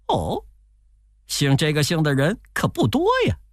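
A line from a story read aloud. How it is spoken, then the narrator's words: Laughing. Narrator (Chinese): 悟空笑着说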